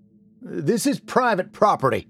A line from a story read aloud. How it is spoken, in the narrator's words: called out